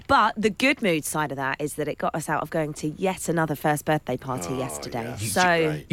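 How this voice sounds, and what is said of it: Hoarse, strained voice. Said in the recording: “you can hear it in your voice ... I think I'm losing my voice a little bit”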